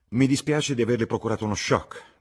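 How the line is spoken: Said curtly. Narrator (Italian): disse seccamente

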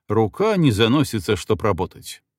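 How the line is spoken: Angry irritated soldiers. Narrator (Russian): Солдаты были злы и раздраженно говорили

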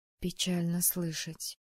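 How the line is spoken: Calm. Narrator (Russian): спокойно сказала я

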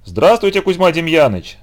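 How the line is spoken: Boys shouting out of sync. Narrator (Russian): в разброд крикнули мальчики

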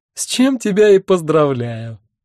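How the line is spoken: Bursting into laughter. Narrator (Russian): расхохоталась она

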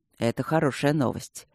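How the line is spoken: Soft, gentle. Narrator (Russian): мягко и деликатно сказал Алекс

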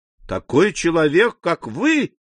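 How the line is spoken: Exclamation. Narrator (Russian): воскликнул Альбер

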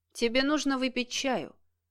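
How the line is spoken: Matter-of-fact tone. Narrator (Russian): будничным тоном произнес Денис

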